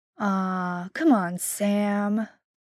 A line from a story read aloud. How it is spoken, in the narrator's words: Dean wheedles, his voice the sex-soaked purr